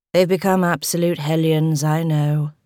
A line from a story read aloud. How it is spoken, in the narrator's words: he said, gave a sigh